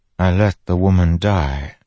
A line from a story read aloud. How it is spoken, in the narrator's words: Fen said softly